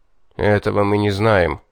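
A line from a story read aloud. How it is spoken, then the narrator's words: Muffled, after a pause. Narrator (Russian): помолчав, глухо проговорил Хайнц-старший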